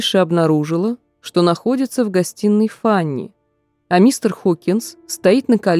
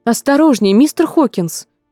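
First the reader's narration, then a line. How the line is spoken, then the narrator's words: Wife's exclamation. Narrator (Russian): воскликнула его жена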